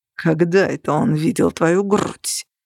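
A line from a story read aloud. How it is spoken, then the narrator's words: Hiss. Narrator (Russian): прошипел Грегор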